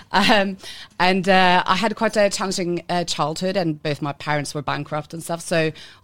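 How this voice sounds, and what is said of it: Norwegian accent. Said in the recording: “I'm Norwegian. That's what that weird accent is. It's not a drunk Irish person.”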